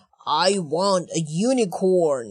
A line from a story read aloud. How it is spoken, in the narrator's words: he roared